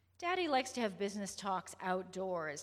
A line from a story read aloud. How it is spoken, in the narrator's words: Tabby said